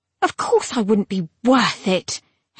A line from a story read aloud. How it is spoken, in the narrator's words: Hera said scornfully